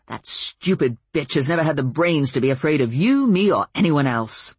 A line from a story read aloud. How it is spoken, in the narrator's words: Ben snapped with more force than truth